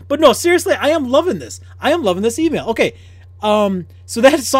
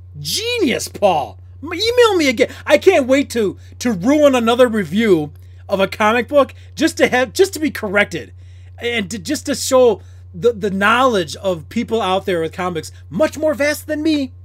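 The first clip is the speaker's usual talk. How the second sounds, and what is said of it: Sarcastic mock-enthusiastic delivery. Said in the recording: “It may sound like I'm being sarcastic.”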